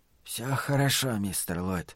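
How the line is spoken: Whispered. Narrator (Russian): прошептал он

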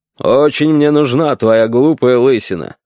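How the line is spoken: Grumbling. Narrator (Russian): ворчал Аркадий Ильич

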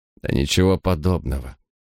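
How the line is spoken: Calm objection. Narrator (Russian): спокойно возразил он

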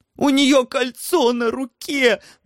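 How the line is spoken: Delighted wheeze. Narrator (Russian): восторженно засипел хозяин лабиринта

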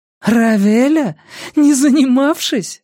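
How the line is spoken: Laughing question. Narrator (Russian): рассмеялась Грета и спросила

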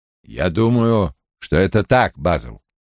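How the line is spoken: Quiet. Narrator (Russian): тихо произнес Том

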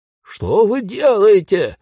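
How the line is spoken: Ghost's wail. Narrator (Russian): завопил призрак

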